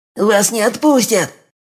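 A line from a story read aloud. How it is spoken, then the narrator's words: Hysterical shriek, village elder. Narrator (Russian): истерически взвизгнул староста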